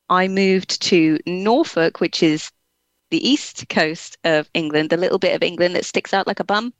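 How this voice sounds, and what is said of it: English accent. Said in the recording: “what is that lovely accent? ... So I should have a farmer's accent. I don't know why I don't.”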